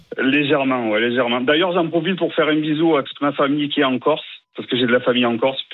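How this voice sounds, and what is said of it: Light southern French accent. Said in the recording (French): “Vous avez un léger accent du sud ... vous êtes de Marseille”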